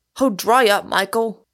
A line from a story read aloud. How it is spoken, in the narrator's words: cried Gould irritably